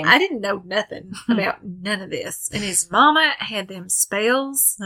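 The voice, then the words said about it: Put-on Southern accent. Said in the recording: “They're all them Southern folk, though. ... you can tell that's the accent. ... Because that's my favorite to do.”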